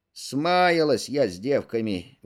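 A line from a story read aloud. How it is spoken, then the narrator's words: Grumbling, old woman. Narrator (Russian): ворчала бабушка Лукерья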